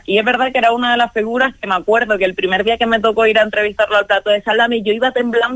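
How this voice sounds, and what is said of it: Canarian Spanish accent. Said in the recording (Spanish): “el acento canario ... tu acento, tu forma de hablar ... somos dos canarios en la redacción”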